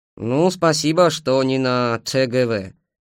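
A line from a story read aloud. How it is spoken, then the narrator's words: Muttering. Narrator (Russian): пробормотал Ашот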